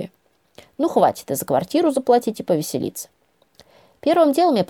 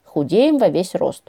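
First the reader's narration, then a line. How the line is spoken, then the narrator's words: Wry snort. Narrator (Russian): хмыкнула Лёлька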